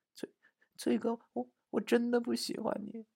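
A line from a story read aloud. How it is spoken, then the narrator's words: Aggrieved murmur. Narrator (Chinese): 他好像受了很大的委屈，但还是喃喃地说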